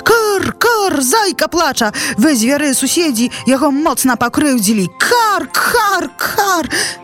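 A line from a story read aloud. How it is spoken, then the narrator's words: Sudden shout. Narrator (Belarusian): як закрычыць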